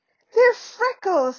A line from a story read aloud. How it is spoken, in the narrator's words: said Ron furiously